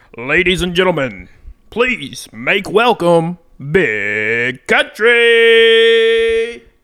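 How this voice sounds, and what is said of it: Announcer voice. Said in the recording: “You got a better announcer voice than I do.”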